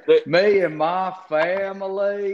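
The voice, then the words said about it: Put-on country Southern accent. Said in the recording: “this country southern accent that he tried to do”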